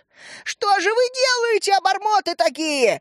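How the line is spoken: Shouted. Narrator (Russian): закричала она

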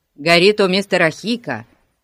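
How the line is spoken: Shouting. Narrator (Russian): крикнул кто-то

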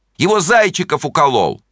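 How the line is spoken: Shouting. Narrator (Russian): Они кричали

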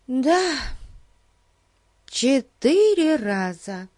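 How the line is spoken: Sighing. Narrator (Russian): Кити вздохнула

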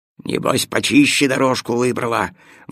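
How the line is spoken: Grumbling dog. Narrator (Russian): ворчал пес Тило

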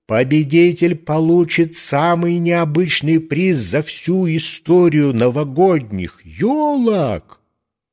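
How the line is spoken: Loud proclamation. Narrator (Russian): Дед Мороз громко провозгласил

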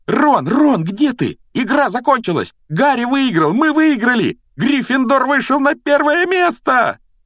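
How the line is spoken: Joyful screaming, bouncing. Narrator (Russian): Радостно вопила Гермиона, подпрыгивая на сиденье

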